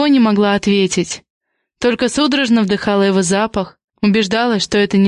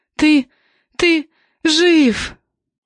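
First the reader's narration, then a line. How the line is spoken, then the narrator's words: Sobbing, choked out. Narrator (Russian): выдавила сквозь всхлипы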